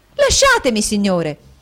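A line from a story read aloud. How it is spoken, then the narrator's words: Angry exclamation. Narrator (Italian): ella esclamò col cuore gonfio di collera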